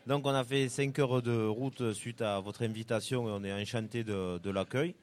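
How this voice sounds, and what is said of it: Regional French accent, not local. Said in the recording (French): “vu mon accent, je vais mentir à personne, vous avez bien compris qu'on n'est pas d'ici”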